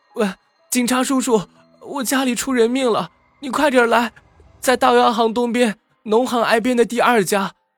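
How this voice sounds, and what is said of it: Weak, breathless, urgent voice. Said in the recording (Chinese): “气喘吁吁的...用微弱而急促的声音说”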